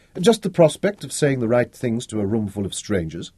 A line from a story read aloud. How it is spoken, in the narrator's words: she denied quickly